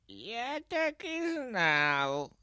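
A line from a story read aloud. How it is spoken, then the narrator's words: Sleepy forest spirit speech. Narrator (Russian): сказал леший, сонно потягиваясь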